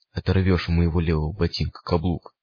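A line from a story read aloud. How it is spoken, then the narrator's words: Hoarse whisper. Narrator (Russian): хрипло шептал странник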